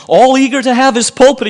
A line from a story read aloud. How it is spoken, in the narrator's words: he cried